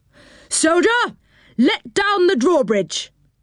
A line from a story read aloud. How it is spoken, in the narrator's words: yelled Joe in his loudest and most commanding voice